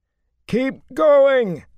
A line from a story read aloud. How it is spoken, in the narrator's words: Matt bellowed